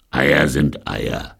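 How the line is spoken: Growled. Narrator (German): knurrte Sargnagel

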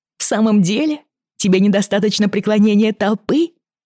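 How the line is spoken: Laughing. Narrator (Russian): рассмеялась она

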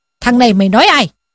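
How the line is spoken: Furious shout. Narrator (Vietnamese): Võ Hành Giả sốt tiết lên, quát lên rằng

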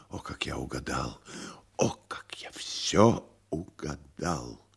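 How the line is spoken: Whispered. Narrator (Russian): гость прошептал

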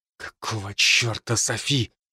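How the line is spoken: Whisper. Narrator (Russian): прошептал я

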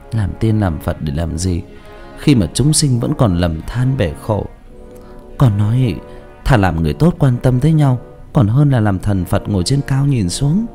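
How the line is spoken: Long heavy sigh. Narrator (Vietnamese): Cô thở dài thườn thượt

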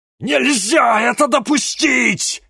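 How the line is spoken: Howling inner voice. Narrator (Russian): взвыла Локобал в голове Дениса

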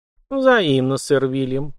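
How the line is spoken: Cooing. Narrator (Russian): проворковала графиня

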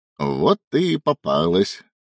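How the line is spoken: Hoarse wheeze. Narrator (Russian): прохрипел Илья

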